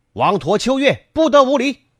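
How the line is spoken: Shout from a distance. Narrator (Chinese): 喊声正是从这里传来的

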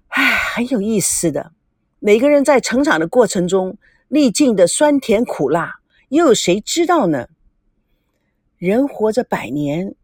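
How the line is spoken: Sighing. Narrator (Chinese): 王曼叹口气，接着说

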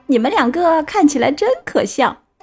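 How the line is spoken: Laughing loudly. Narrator (Chinese): 内特大笑起来

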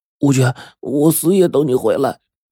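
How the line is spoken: Tearful reply. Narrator (Chinese): 孙彤 哭得红肿的眼睛，回答

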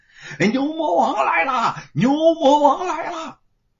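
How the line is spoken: Alarmed shouting. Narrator (Chinese): 说书人 对着公差们在身后大喊

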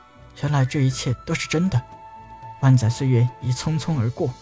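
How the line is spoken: Murmuring after long pause. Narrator (Chinese): 过了好久，才喃喃道

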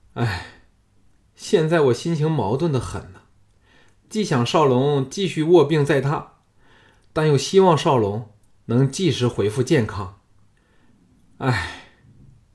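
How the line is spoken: Sighing. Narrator (Chinese): 昌平君叹道

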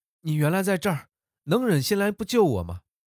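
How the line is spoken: Woman shouting. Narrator (Chinese): 女子高喊

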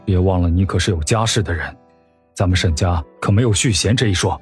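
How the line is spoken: Low voice. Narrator (Chinese): 沈炼 低声说

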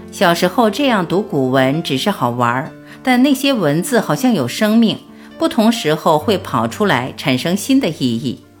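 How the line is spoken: Smiling. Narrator (Chinese): 杨元宁笑着说

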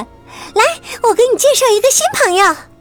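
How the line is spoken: Calling out. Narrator (Chinese): 小水牛，他喊着

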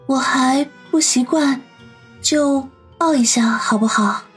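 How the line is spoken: Quiet, soft voice. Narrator (Chinese): 小声的说道

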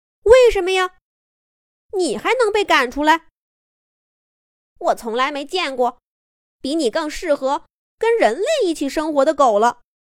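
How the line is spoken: Clamoring crowd of dogs. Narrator (Chinese): 所有的狗都挤过来，围着小莫嚷嚷道

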